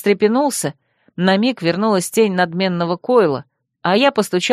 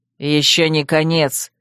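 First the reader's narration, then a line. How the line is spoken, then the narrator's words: Growled. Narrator (Russian): рыкнул он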